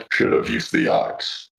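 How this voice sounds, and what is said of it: Creepy character voice. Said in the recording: “creepy voice”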